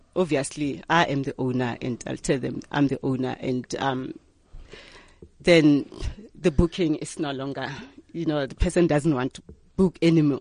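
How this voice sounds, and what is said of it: Black South African Pedi accent. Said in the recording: “I sound black. I'm black, and I, I sound black. I mm. don't have a coconut accent... you sound black, you sound Pedi... I don't have that coconut accent.”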